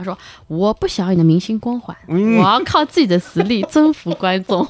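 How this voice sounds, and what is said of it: Heavy, comical Shanghai accent. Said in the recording (Chinese): “熟悉的口音又来了。...我爸的上海口音就是刚才那样，就很重嘛...他口音就很好笑”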